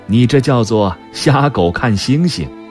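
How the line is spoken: Grandmother, mocking. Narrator (Chinese): 祖母嘲笑我说

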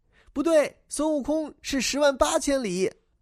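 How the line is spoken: Group shouting. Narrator (Chinese): 大家叫起来

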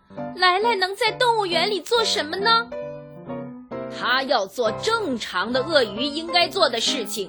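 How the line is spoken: Anguished cry. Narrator (Chinese): 温暖太太痛苦的叫道

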